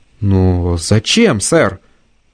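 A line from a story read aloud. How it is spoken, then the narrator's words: Strained, forced out. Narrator (Russian): выдавил рядовой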